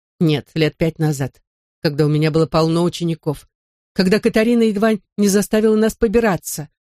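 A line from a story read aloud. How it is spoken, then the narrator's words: Icy tone. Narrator (Russian): ледяным тоном добавила мисс Голубая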